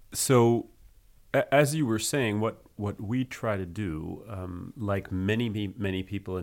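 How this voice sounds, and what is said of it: French-accented English. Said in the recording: “your beautiful French accent”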